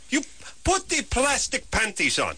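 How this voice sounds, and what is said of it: Put-on Eastern European accent. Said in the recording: “A very good Eastern European accent ... Indeterminate Eastern European”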